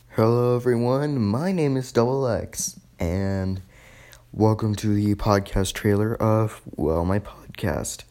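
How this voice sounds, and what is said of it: Hoarse, tired, fading voice. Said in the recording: “I'm losing my voice ... I'm extremely tired”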